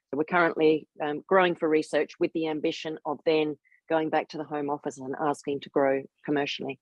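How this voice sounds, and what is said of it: Australian accent. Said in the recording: “I sound Australian”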